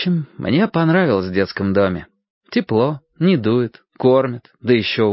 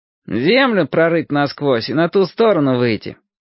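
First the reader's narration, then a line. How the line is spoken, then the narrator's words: Sarcastic. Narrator (Russian): язвительно подхватывал Ромашка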